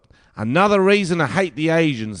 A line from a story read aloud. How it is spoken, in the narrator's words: Neville yelled